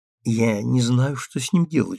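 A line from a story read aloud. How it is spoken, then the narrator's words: Whispered. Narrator (Russian): шепнула она Милли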